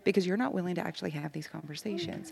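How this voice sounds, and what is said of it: Whispering. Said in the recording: “I'm actually in the middle of an office ... That's why I'm having to whisper.”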